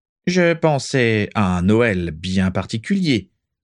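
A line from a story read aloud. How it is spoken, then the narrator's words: Plain. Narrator (French): dit-il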